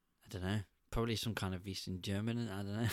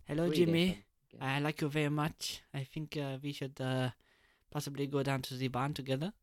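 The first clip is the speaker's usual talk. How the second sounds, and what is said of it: Bad put-on German accent. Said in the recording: “Was that a bad German? Well, I know it was a bad German.”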